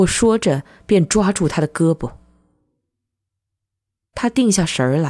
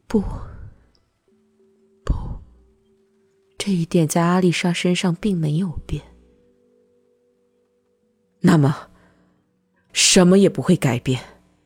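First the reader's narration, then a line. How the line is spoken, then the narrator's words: Trembling, slurred mumble. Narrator (Chinese): 他那苍白的嘴唇颤抖了，他声音含混不清，喃喃说道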